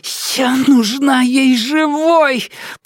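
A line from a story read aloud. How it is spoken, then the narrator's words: Hoarse. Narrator (Russian): прохрипела Нелит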